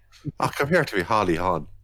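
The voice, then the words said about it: Deliberately bad Irish accent. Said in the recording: “the worst Irish accent potentially of all time”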